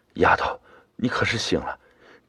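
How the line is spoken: Choked with tears. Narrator (Chinese): 妈妈 … 哽咽的说

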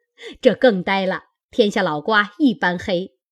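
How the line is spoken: Group laughing. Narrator (Chinese): 众人笑道

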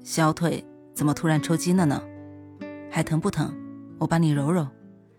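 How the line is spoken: Soft gentle question. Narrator (Chinese): 宋少成 轻声问道

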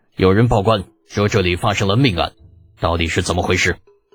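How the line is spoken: Deep, grave question. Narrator (Chinese): 吕帅眉头紧锁，沉声对李浩问道

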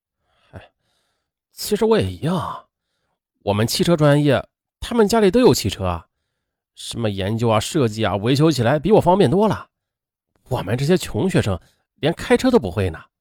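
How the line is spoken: Dejected sighing. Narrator (Chinese): 刘军也是唉声叹气

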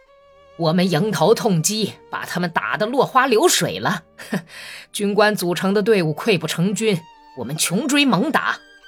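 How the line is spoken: Laughing. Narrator (Chinese): 他不等回答，又笑着说

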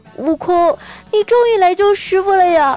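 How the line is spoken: Tearful voice. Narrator (Chinese): 他竟然带着哭腔说

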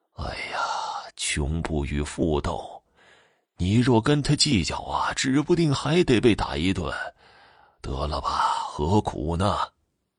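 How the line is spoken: Hurried sighing. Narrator (Chinese): 竹竿老爹连忙，叹息着说道

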